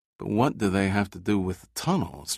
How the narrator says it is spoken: Giordino muttered, confused at trying to put two and two together

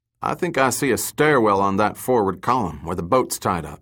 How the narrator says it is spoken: said

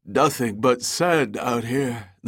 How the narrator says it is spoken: the Nell's co-pilot, a youthful lieutenant named Miyabe, said with a yawn

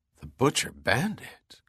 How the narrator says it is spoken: Kaufman said softly in awe

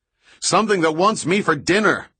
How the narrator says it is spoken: Austin yelled back

